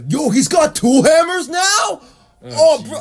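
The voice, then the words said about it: Loud Scarborough bro voice. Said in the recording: “deafening them with my fucking Scarborough bro impression”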